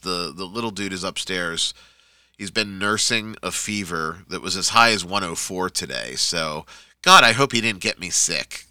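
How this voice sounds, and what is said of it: Coarse, hoarse voice. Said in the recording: “my voice is a little off tonight. It just feels really coarse, and if I don't sound quite like myself”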